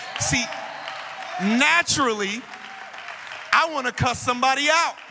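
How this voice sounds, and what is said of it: Usual voice. Nothing is said of it.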